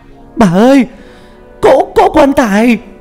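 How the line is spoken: Panicked cry. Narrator (Vietnamese): Hai Sương tiếng cô kêu lên thất thanh

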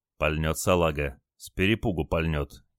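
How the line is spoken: Quiet sailor. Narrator (Russian): тихо сказал моряк

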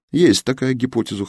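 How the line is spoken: Amused snort. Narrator (Russian): хмыкнул Алексей

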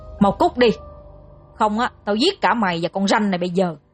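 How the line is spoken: Harsh gritted threat. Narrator (Vietnamese): gằn giọng nói

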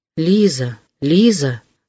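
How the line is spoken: Inner moan. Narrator (Russian): стонало в его сердце

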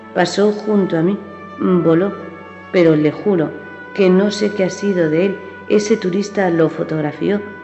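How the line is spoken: Evangelist stammering. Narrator (Spanish): tartamudeó el evangelista

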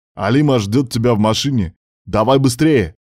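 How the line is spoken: Barking. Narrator (Russian): Рявкнул мужчина

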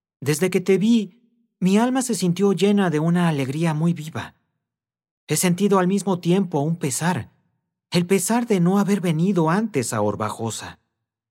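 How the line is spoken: Young man exclaiming. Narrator (Spanish): exclamó el joven

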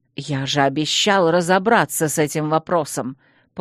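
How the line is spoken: Hissed. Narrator (Russian): прошипел мэр

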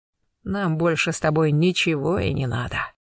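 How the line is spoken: Hoarse whisper. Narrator (Russian): хрипло прошептал Гектор

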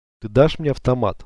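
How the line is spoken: Plain question. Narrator (Russian): спросила Лена

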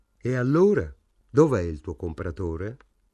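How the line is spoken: Plain. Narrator (Italian): chiese

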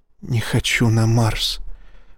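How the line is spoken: Whispered. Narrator (Russian): прошептала Ива

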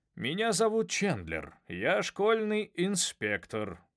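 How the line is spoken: Booming man's voice. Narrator (Russian): прогремел мужчина

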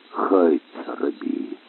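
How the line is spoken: Muttered. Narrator (Russian): пробормотал Тагуа

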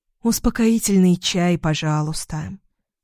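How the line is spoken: Sigh. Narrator (Russian): вздохнула я

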